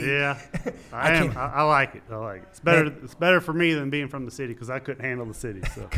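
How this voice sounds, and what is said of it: Texas country accent. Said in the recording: “you good old country boy from Texas living in Oklahoma ... a lot of people still say I have that accent”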